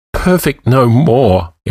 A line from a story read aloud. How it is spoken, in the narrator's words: Escavan said in a quavering voice